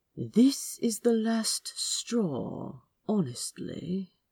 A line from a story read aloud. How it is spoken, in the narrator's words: Aziraphale muttered, thoroughly disturbed